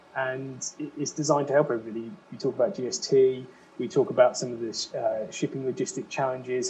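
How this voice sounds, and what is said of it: English accent. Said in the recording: “I have an English accent.”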